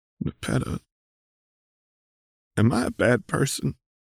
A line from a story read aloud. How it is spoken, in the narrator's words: You croak